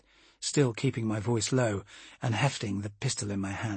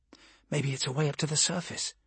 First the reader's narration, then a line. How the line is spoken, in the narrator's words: she whispered hopefully